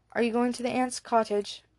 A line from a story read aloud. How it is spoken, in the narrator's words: asked Eric